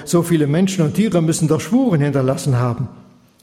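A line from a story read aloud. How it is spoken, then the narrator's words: King calling out. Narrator (German): rief der Pharao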